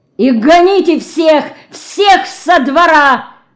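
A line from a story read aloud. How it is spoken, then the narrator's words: Furious shout. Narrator (Russian): с бешенством закричал он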